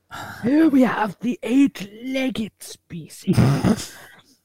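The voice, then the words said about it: Nature documentary narrator impression. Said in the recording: “do a David Attenborough impression”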